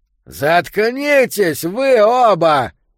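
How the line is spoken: Shout. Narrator (Russian): крикнул Йо

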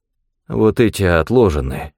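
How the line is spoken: Mumbling. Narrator (Russian): промямлил торговец

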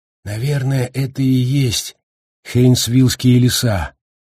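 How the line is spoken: Uncertain. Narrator (Russian): неуверенно сказал Гаррити

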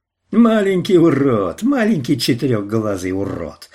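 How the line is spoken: Enraged shouting. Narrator (Russian): свирепел Армбрустер

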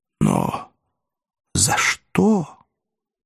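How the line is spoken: Whispering to himself. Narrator (Russian): Римский шептал сам себе

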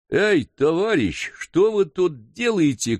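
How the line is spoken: Shouted. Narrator (Russian): крикнул он

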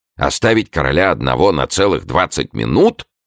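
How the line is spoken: Horrified exclamation. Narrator (Russian): В ужасе воскликнул де Сан-Аньян

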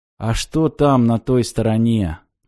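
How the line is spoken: Gloomy question. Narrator (Russian): мрачно поинтересовался он

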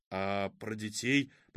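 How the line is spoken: Muffled mutter. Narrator (Russian): пробормотал он, не отодвигая губ от кожи женщины

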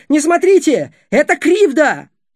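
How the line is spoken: Shouting. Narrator (Russian): Будимир закричал

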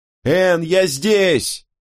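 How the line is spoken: Calling out. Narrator (Russian): выкрикнул я

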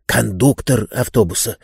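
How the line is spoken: Whisper. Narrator (Russian): прошептал Обадей

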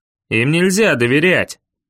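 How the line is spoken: Bearded man grumbling. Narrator (Russian): проворчал бородатый

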